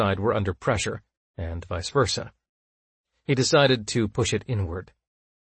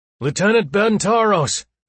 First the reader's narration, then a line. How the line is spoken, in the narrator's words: he bellowed through the muffling layer of the breathing rig